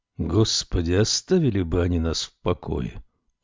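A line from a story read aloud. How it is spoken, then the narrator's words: Sullen grumble. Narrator (Russian): угрюмо пробурчал Лоуренс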